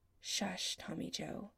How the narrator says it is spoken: Adam pulls back long enough to murmur

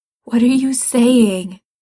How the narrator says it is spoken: asks, his voice shaking

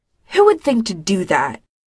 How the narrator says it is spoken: Winona snaps

